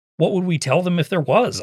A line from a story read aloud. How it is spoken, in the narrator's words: I snapped, losing my patience